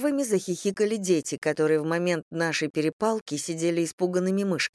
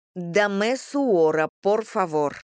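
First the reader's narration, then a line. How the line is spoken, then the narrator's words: Gritted, syllable by syllable. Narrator (Russian): Я раздельно по слогам процедила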